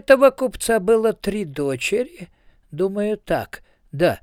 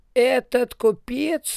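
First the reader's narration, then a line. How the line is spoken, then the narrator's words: Muttering. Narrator (Russian): бормотал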